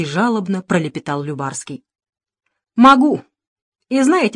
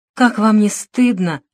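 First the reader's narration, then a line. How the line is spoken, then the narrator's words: Sighed again. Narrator (Russian): снова вздохнул Любарский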